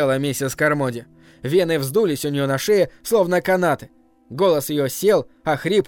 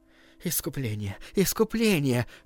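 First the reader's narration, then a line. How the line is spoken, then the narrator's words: Uncertain group whispering. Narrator (Russian): шептали неуверенно остальные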